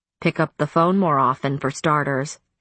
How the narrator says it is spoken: she said grimly

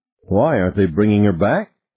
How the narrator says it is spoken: Ted said

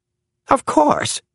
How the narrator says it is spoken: cried Spofford

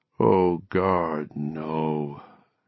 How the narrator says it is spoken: his mind moaned

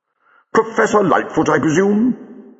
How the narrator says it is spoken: said the doctor cheerfully

